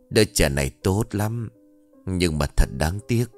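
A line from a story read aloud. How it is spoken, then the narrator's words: Soft gentle voice. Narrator (Vietnamese): bà ta cất giọng khẽ khàng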